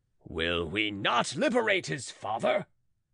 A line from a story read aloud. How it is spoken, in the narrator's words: cried Belay to the mob